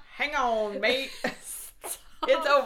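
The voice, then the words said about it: Put-on Australian accent. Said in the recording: “In an Australian accent, telling them to hang on.”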